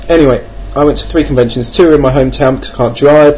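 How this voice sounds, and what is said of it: English accent. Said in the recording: “If you notice the accent, I'm not Australian, I'm not French, or I'm not Canadian either, eh? I'm English.”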